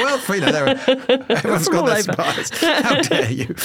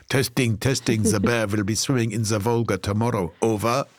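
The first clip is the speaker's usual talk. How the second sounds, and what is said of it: Put-on French-sounding accent. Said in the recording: “With a French accent. Weird, isn't it?”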